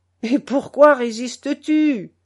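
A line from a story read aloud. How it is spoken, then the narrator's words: Reproachful question. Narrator (French): demanda-t-il d'un ton gros de reproche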